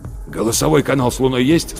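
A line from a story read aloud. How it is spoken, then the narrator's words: Hoarse question. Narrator (Russian): спросил Рудольф Терентьевич хриплым голосом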